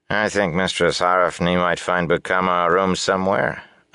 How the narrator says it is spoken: a man's familiar voice said dryly behind Lan

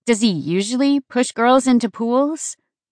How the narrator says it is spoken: She laughed

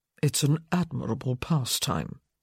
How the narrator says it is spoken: he murmured

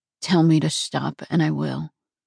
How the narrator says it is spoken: murmured against my lips

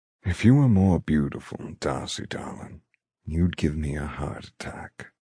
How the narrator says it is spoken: he says smoothly

